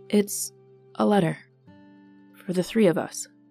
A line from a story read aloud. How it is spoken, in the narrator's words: replied quietly